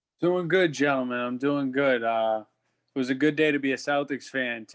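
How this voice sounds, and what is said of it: Strong Boston accent. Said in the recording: “our Southie boy ... His accent is unbelievable.”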